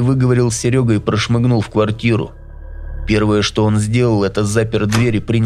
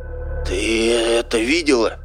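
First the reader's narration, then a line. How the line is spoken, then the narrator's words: Astonished hoarse rasp. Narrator (Russian): прохрипел изумленный Серега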